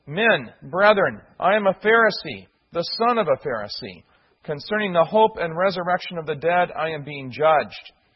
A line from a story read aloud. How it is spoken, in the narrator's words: he cried out in the council